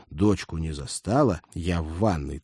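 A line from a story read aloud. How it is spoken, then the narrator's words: Girl's tragic hiss. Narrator (Russian): трагически прошипела девушка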